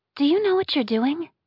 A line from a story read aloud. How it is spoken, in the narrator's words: She asked in a worried tone